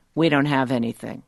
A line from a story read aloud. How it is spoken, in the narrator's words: I say flatly